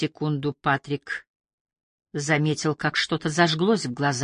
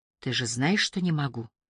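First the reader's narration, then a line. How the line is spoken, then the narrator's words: Soft. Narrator (Russian): мягко сказала она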